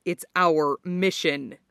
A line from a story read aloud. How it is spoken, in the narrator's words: the boy snapped back, hostile